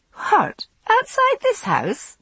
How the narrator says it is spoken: I laughed

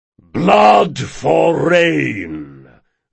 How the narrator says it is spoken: boomed a deep voice

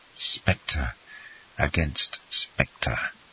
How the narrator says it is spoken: he murmured in a low voice

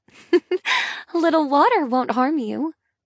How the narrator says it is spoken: I chuckle

